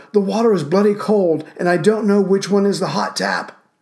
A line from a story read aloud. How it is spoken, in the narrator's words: yelled